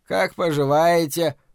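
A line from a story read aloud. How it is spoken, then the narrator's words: Muttering. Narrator (Russian): пробурчал Лео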